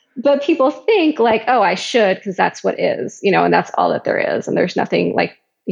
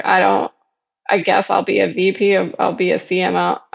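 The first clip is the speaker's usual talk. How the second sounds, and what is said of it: Flat, unenthusiastic delivery. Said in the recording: “you can hear it in my voice. I'm not excited about this at all.”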